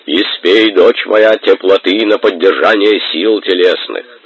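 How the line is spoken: Deep bass, burly deacon. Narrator (Russian): громоздкий, краснолицый, с рыжей бородой диакон пробасил

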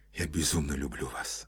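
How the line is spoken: Whispered. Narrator (Russian): шептал он

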